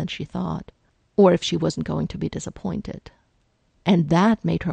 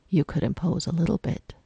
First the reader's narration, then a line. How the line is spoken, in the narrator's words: he said evenly